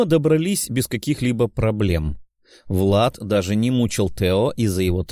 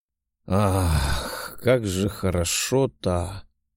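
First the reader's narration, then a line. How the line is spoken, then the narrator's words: Contented murmur. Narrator (Russian): пробормотал лорд демонов, отмокающий в горячей ванне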